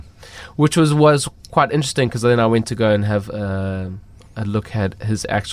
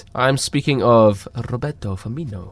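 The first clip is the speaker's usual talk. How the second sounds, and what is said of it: Poor put-on Brazilian accent. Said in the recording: “That was probably the worst Brazilian accent.”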